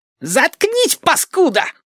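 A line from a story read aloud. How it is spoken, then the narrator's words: Shrieking. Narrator (Russian): взвизгнул Мухобой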